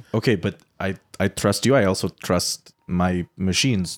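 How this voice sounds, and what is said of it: Put-on accent. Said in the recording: “I stay in this accent all the time because it's very enjoyable.”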